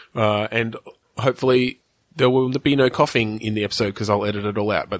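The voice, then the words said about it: Croaky, sick-sounding voice. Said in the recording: “I'm the one who's been sick this week ... pardon the croakiness”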